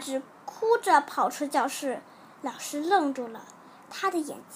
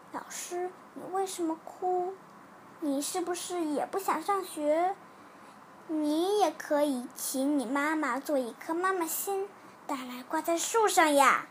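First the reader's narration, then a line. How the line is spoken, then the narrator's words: Quiet question. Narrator (Chinese): 小苹果……小声的问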